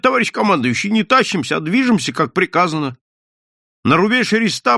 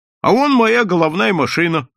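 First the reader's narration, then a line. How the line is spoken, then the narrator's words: Joyful addition. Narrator (Russian): радостно добавил он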